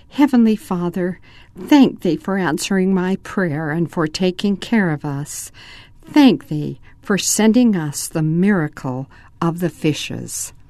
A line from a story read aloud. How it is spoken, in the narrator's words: she spoke softly